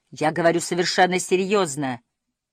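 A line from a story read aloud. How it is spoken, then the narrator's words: Angry interruption. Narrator (Russian): перебил я ее сердито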